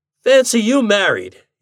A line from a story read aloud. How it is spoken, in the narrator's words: he exclaimed